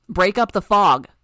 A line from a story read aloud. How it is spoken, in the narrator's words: shouted